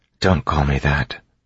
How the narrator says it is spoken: Vin said quietly

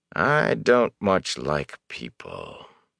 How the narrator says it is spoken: he said in a flat voice

